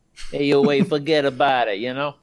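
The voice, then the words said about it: Put-on New Jersey accent. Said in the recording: “The Jersey Devil accent”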